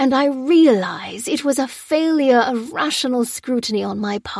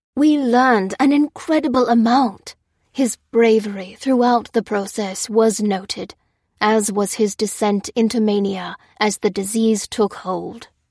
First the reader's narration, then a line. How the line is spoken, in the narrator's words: said Harvey solemnly